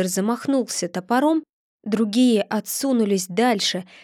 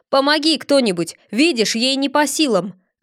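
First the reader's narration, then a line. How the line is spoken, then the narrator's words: Shout. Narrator (Russian): крикнул Федор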